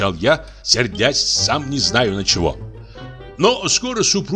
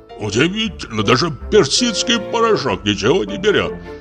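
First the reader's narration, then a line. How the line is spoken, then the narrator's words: Grumbling. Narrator (Russian): проворчал Федя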